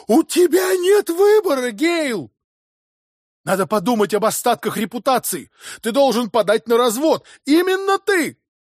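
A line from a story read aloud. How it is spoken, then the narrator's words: Breaking into a shout. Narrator (Russian): Голос его сорвался на крик, выдавить из себя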